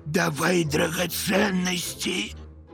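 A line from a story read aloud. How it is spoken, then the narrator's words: Hoarse rasp, thug. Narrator (Russian): выхрипывает одна из рож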